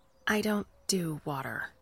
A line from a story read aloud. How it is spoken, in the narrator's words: she said